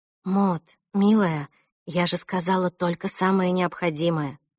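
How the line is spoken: Mother said with a sigh. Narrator (Russian): мама, вздохнув, сказала

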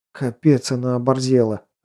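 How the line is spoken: Growling. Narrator (Russian): рычал трехмерный

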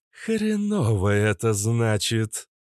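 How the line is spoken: Growl. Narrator (Russian): прорычала кобра

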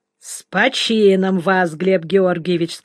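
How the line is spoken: Plain. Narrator (Russian): сказал Копченый

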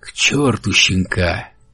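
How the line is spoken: Soft. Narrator (Russian): сказал он мягко

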